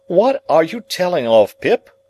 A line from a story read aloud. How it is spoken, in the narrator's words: cried Joe, in the greatest amazement